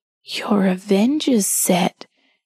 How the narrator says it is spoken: he whispered

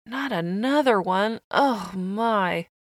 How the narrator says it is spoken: all the food whispered

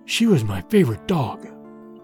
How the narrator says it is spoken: Petar whispered

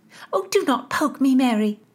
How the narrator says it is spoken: Nazareth snapped

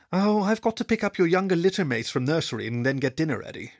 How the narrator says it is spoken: she sighed

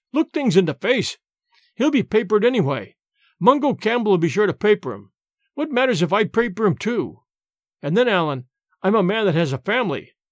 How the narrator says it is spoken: cried James

